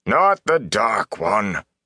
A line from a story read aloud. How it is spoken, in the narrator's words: Aral Luhan growled